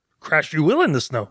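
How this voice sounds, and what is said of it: Yoda-style character voice. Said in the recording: “Yoda ... You do that pretty good.”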